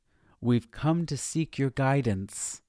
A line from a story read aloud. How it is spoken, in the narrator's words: Sharon called out